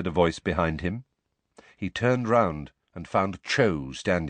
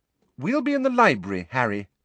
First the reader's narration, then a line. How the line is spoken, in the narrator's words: said Hermione firmly